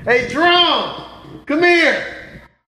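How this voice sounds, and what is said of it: Yelling someone's name. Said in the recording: “Why are you yelling”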